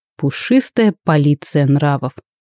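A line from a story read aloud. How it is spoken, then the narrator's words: Reluctant snort. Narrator (Russian): хмыкнул Райден с неохотой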